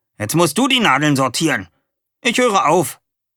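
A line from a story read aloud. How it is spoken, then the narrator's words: Calling out. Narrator (German): rief er der Sau in der Nähe zu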